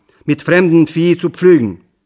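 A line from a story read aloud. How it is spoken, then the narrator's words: Angry shout. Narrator (German): rief ich aufgebracht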